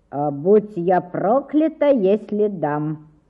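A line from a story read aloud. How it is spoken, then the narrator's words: Calm. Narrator (Russian): спокойно ответила Бетси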